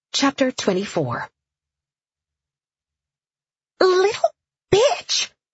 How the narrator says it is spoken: Frida spluttered

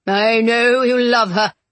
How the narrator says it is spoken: he sneered

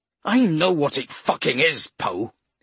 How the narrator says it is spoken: he snarled

